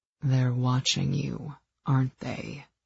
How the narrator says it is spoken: He purred

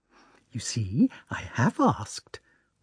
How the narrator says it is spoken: whispered Natasha to her little brother and to Pierre

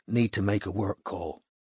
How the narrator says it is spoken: he added quietly, so that Lucy couldn't hear

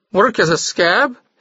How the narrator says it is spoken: he cried

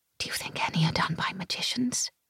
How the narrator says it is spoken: I whispered to Gabe

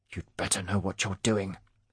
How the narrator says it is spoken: he said through gritted teeth

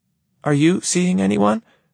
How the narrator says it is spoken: she ventures timidly

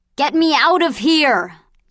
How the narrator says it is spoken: yelled the grouchy woman

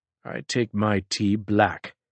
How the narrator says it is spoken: Picard murmured

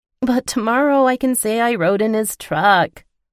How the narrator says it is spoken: she whined

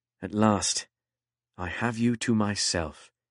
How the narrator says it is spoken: he murmured to Posy

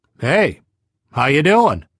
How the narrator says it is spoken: he called out

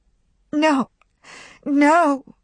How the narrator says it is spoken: cried Melanie

